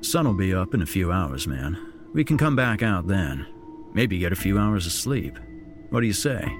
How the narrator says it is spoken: asked Jack

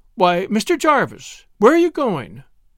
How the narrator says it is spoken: she exclaimed

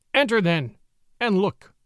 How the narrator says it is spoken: said Father Wolf stiffly

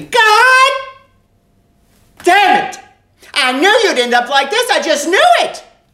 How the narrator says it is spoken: scream

